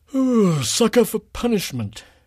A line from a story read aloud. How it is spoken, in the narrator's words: Phillips said through a yawn